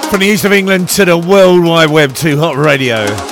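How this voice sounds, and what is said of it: Radio DJ voice. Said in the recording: “This is my best DJ voice ... I've got a perfect voice for radio”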